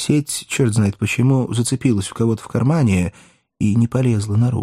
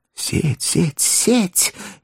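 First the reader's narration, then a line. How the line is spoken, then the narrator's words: Anxious whispering crowd. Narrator (Russian): беспокойно зашептали вокруг кота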